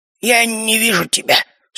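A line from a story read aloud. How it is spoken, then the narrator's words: Quiet wheeze. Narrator (Russian): снова тихое хрипение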